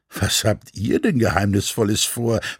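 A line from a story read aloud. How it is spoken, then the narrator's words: Plain question. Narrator (German): fragte sie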